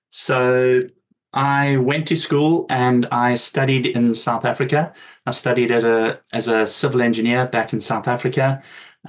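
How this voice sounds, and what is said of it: Non-British accented English. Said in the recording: “I can hear in your accent that you're not a native born British person”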